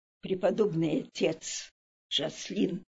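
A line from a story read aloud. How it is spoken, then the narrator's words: Quiet speech. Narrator (Russian): она тихо сказала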